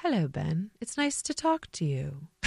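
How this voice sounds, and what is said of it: Put-on British accent. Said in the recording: “with that British accent”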